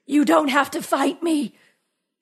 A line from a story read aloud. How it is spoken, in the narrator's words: said, gasping for breath